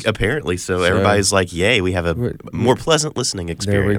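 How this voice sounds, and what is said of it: Congested, deeper nasal voice. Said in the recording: “my stuffy nose ... it just makes your voice deeper”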